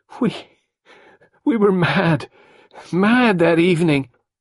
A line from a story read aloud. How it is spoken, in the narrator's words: Carol sobbed out brokenly